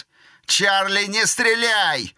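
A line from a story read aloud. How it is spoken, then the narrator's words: Yelling at full volume. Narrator (Russian): завопил Кид во всю глотку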